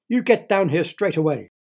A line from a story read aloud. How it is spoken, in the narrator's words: she shouted